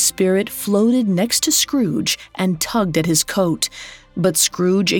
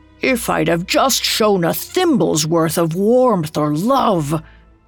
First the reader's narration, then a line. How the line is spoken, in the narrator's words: groaned in despair